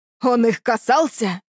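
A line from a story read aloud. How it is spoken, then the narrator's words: Old man's echoing roar. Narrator (Russian): взревел старик так, что эхо прокатилось по тоннелю и убежало во тьму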